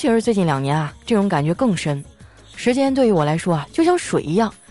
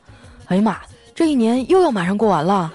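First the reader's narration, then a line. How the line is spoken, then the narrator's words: Exclaiming in amazement. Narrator (Chinese): 总会时不时的发出惊叹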